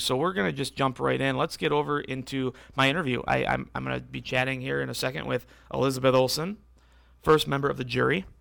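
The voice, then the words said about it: Hoarse, strained voice. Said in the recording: “I'm losing my voice here quickly ... I'm losing my voice”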